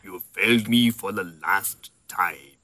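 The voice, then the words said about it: Imitates Darth Vader's voice. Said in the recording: “Doesn't James Earl Jones play Darth Vader with a British accent? ... That's British.”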